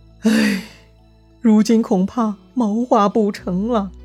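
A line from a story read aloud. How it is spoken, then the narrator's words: Sighing. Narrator (Chinese): 董承叹息道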